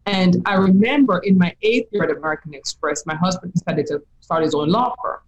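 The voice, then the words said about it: Jamaican Caribbean accent. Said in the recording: “If you can hear my accent, you'll know I'm from Jamaica, right? I'm from the Caribbean.”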